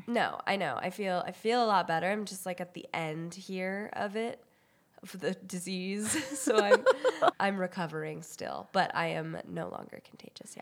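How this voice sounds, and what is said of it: Congested, rough sick-sounding voice. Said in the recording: “my voice sounds terrible and my nose is really stuffy because I was sick.”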